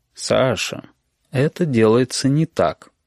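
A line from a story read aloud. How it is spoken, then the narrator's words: Gentle. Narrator (Russian): ласково сказал Горбун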